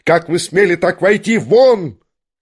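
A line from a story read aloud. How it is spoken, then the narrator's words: Trembling, faltering shout. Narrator (Russian): кричал он, дрожа и даже едва выговаривая слова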